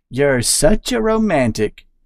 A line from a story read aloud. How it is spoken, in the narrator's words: Emerson said, unable to stifle a giggle